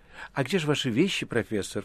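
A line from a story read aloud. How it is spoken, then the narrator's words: Ingratiating question. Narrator (Russian): вкрадчиво спрашивал Берлиоз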